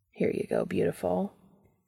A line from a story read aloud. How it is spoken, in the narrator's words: Castiel says quietly